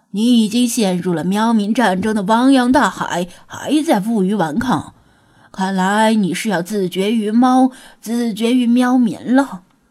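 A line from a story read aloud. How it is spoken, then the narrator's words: Soft chuckle. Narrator (Chinese): 弗拉基米尔轻笑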